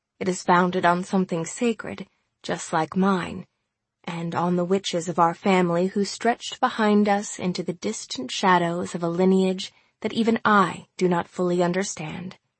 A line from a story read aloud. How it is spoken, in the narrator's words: Gran said in a confessional tone